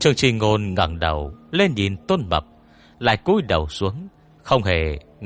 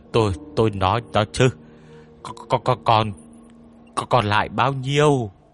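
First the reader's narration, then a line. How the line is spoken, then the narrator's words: Nervous stammering question. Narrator (Vietnamese): Tôn Mập lau mồ hôi trên trán, lắp bà lắp bắp hỏi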